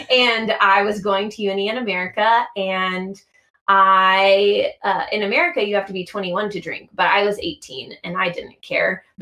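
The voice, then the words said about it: American accent. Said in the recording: “I'm American from my accent.”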